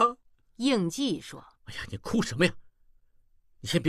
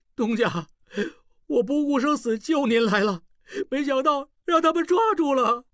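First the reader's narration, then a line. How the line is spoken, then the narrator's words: Loud sobbing. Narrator (Chinese): 小栓上前抱住应济大哭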